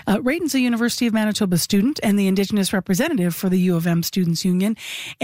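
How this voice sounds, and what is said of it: Smooth, polished radio voice. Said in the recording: “you have a perfect radio voice”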